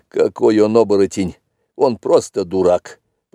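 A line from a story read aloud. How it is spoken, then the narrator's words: Grumbling. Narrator (Russian): проворчал он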